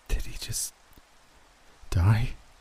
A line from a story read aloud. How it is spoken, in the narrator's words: Caitlin asked, her voice on the verge of panic